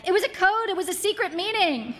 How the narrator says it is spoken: wanted to yell

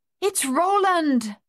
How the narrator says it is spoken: Madame Chassé cried

